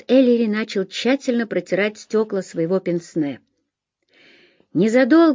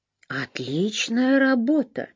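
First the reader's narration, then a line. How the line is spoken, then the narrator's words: Surprised tone. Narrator (Russian): удивленным тоном сказал Сэмпсон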